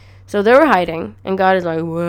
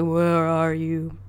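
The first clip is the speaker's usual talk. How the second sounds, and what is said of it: Impression of God's voice. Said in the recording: “my impression of God”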